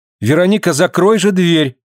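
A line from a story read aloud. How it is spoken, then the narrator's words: Shouted. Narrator (Russian): крикнула она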